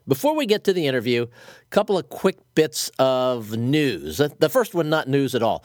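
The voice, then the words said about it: Congested, muffled voice from a cold. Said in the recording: “You may hear in my voice that I've got a little bit of a cold ... I sound to myself a bit like I'm talking from inside a barrel”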